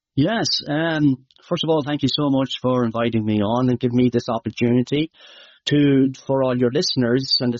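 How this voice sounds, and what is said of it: Irish Midlands accent. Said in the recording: “my accent might be hard to understand ... It's in the Midlands of Ireland”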